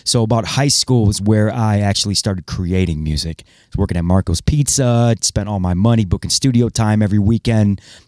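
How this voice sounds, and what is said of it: Good radio voice. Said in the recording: “you have a very good radio voice.”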